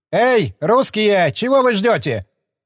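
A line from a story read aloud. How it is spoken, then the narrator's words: Shout. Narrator (Russian): крикнул он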